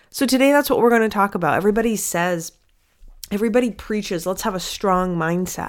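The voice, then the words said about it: Stuffy nose from a cold. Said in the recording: “I have a bit of a cold, so you hear a little bit of a stuffy nose”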